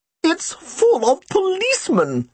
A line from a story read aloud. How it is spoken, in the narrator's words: she exclaimed